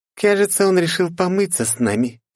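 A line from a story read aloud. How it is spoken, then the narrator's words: Snide, sneering. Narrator (Russian): ехидно оскалилась Лифа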